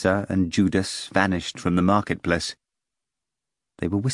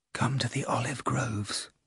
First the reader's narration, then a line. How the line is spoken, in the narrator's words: Nitsa whispered